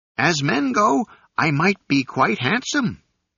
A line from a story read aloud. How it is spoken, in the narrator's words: replied the monkey, who coughed